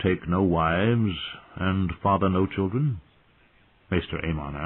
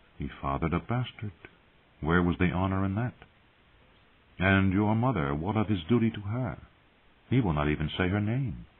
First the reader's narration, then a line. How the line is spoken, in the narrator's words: a small, sly voice whispered